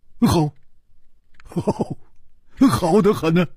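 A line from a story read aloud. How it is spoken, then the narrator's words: Cheerful, grinning. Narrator (Chinese): 胡铁花笑嘻嘻地说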